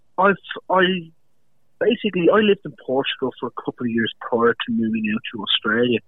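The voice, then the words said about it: Irish accent. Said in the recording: “We can pick the accent there ... I love the way the Irish talk”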